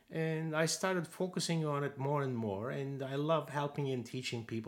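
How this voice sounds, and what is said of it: Turkish-German accented English. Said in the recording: “my Turkish, German, whatever accent.”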